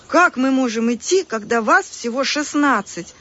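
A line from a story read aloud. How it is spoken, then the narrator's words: Agitated exclamation. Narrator (Russian): взволнованно воскликнула Полина без косы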